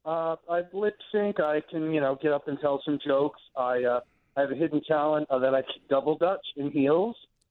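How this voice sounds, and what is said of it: Rhode Island accent. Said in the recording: “your accent. So that's a Rhode Island accent? ... not as gruff, but I hear a hint of Harvey Fierstein ... With the way you end your words.”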